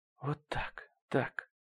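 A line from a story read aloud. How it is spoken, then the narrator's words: Whisper. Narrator (Russian): прошептала она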